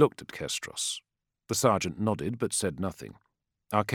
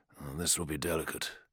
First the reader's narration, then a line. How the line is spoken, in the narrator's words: he murmured